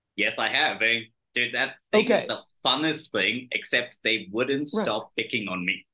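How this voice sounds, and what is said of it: British accent. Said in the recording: “you had that snotty ass British accent from the start”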